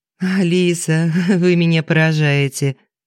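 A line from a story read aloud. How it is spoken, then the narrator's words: Laughing lady. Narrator (Russian): засмеялась посольская дама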